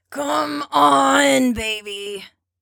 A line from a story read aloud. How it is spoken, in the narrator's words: he whines, and it's clearly an act